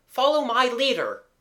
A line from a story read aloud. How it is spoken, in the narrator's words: Gerald cried